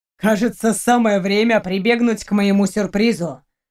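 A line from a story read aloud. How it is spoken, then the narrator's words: Dry snort. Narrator (Russian): хмыкнул Фенрир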